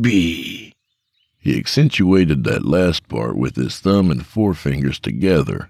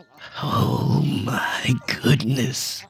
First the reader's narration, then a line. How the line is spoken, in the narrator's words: he whispered